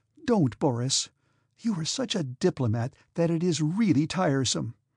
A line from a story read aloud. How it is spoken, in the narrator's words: said Natasha in a mortified voice that trembled slightly